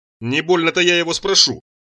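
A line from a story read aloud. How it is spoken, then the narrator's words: Snort. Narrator (Russian): фыркнул Мурзик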